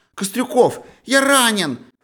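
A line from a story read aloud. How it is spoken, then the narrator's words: Shouted, voice unrecognizable. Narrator (Russian): крикнул и не узнал своего голоса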